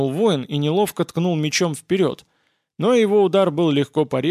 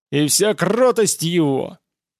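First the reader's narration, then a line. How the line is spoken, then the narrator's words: Roared battle cry. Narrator (Russian): Охотник за головами проревел свой боевой клич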